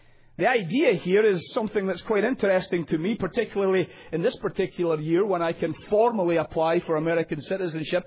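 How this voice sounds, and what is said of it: British foreign accent. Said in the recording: “You can tell by my accent. It betrays me that I'm a foreigner ... You don't let British people simply come over the Atlantic”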